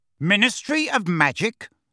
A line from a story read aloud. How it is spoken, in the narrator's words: bellowed Uncle Vernon